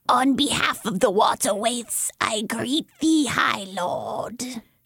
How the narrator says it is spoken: she said, her voice strange and hissing

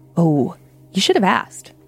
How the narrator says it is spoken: she said, in a lower, almost fearful tone

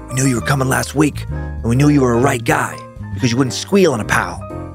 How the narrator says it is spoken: a convict in a cell near me whispered

